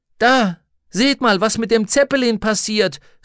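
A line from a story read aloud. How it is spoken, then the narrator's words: Calling out. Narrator (German): rief jemand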